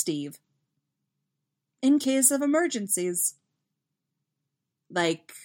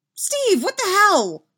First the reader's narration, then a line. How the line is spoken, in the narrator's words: Henderson exclaims, cut off by Steve's strangled-sounding voice